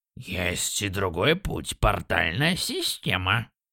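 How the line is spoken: Smirking snort. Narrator (Russian): хмыкнул Дронир

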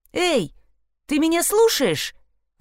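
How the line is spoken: Exclaiming. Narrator (Russian): воскликнула Кира

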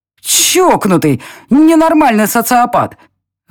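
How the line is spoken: Shouted out. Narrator (Russian): выкрикнула я в пустоту офиса

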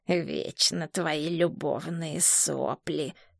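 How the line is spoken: Quiet grumble. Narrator (Russian): тихо ворчал Дженда

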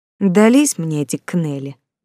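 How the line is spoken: Resigned, guilty sigh. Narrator (Russian): вздохнула Ника, привычно делая себя виновной

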